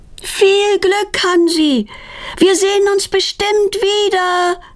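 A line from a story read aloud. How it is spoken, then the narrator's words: Calling after someone. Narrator (German): ruft Petronella ihm nach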